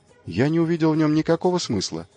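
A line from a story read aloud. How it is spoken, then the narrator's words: Timid. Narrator (Russian): робко сказал Хью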